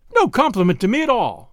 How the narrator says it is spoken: cried the girl indignantly

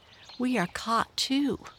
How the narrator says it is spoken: cried Tinkle's father

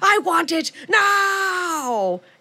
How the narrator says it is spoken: And shrieking

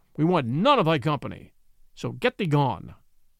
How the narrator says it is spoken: said the lean brother harshly

